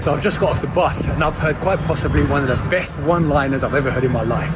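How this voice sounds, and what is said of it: British accent. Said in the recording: “Some guy over in Great Britain So it's a news involving a fun accent.”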